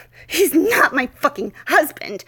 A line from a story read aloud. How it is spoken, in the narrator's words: I snapped at him, struggling to get the words out as I grunted in beautiful agony